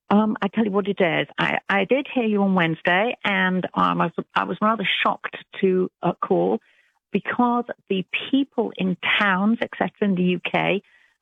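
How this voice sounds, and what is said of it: British English accent. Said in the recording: “you don't sound like you're from Alabama ... I'm British. ... British accent ... I love her accent. ... I love an English accent also.”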